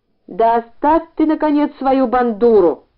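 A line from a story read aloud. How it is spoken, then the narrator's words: Shout. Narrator (Russian): закричал на него учительница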